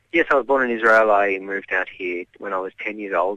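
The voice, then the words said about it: Australian accent. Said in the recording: “fantastic Australian accent”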